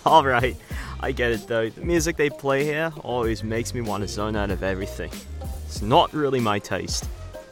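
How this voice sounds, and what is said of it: Goofy Australian accent. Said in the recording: “his accent. That goofy Australian accent.”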